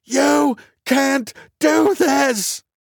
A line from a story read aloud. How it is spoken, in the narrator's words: screamed